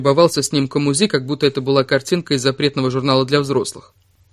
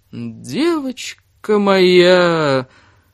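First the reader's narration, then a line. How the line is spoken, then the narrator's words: Drawn-out, creepy tone. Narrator (Russian): протянул доктор Штейнберг с такой интонацией, что на мгновение Кире снова показалось, что он гнусный маньяк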